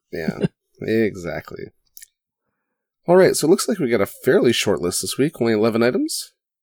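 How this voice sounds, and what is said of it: Deeper, strained, failing voice. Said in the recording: “I'm about to lose my voice ... If I sound a little bassier than usual, that's a direct result of that.”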